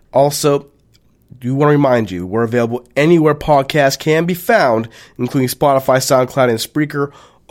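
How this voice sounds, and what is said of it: Slightly hoarse voice. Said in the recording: “I'm a little under the weather, my voice is a little hoarse”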